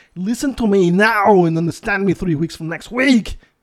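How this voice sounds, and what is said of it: Arnold Schwarzenegger impression. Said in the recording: “I can speak like a little bit about Arnold Schwarzenegger ... That's pretty good, Arnold.”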